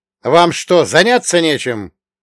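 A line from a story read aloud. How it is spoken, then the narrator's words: Barked shout. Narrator (Russian): гаркнул я на любопытных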